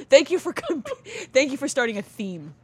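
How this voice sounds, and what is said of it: Sarcastic thank you. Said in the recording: “I was being sarcastic in my thank you.”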